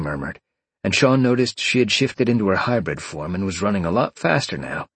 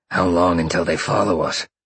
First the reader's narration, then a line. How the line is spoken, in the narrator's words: Sean grunted